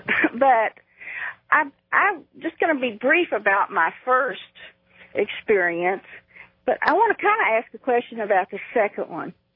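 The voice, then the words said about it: Texas accent. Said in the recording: “from Texas ... As you can probably tell with the accent”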